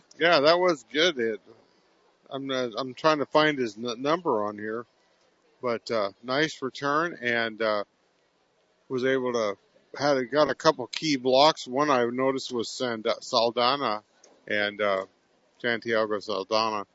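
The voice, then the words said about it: Hoarse, strained voice. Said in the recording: “I'm losing my voice out here because it's getting cold.”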